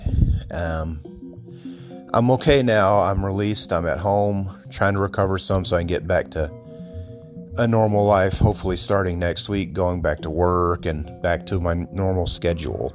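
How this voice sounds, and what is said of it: Out of breath while speaking. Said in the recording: “You probably can tell I'm out of breath just talking right now. ... you've probably heard me out of breath”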